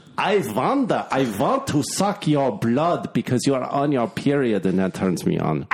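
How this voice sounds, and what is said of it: Exaggerated fake Russian accent. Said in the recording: “a stupid Russian accent, but it's not Russian enough”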